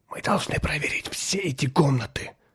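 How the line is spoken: Whisper. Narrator (Russian): прошептал землянин

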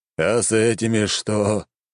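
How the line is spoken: Old man's resigned sigh. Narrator (Russian): обреченно выдохнул старик

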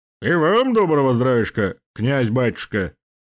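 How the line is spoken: Deep bass voice. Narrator (Russian): пробасил здоровяк

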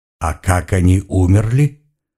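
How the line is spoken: Calm inquiry. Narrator (Russian): спокойным тоном поинтересовался Ашора

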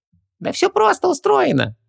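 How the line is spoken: Cheerful squeak. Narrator (Russian): весело пискнул Хубаксис

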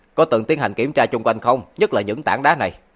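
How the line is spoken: Cold, uneasy question. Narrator (Vietnamese): nỗi bất an trong lòng Lãnh Phong tăng lên cực hạn, hắn lạnh lùng hỏi

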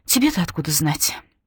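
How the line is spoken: Sharp retort. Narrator (Russian): резко бросает

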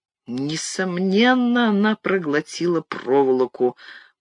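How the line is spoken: Mutter. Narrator (Russian): пробормотал

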